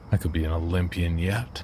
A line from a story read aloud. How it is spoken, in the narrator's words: Tom declared with a chuckle